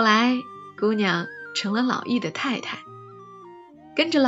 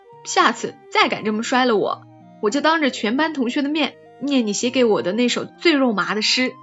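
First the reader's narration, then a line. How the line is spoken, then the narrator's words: Mock-angry threat, suppressed laughter. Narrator (Chinese): 姑娘 就忍着笑，摆着怒气威胁老易说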